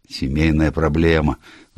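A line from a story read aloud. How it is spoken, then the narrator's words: Sigh. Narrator (Russian): вздохнул Энтвисл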